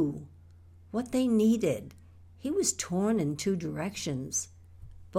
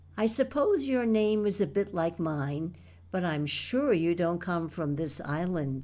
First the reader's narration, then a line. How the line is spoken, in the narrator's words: said Bill